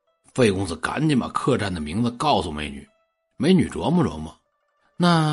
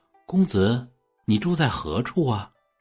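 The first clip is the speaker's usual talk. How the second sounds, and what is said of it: Soft, quiet female voice. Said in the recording (Chinese): “美女低头小声就问”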